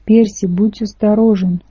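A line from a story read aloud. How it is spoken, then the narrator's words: Pleading voice. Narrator (Russian): умоляющим голосом попросил Тайсон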